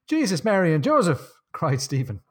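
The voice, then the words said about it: Put-on Irish accent. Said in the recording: “I had to do it in the Irish accent there.”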